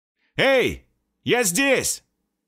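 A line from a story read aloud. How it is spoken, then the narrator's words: Loud shout. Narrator (Russian): Снова громко закричал я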